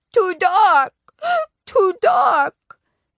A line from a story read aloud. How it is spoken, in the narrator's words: Sam cried